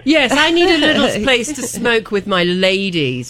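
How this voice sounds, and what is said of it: Put-on posh English accent. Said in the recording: “she probably didn't say it with an English accent”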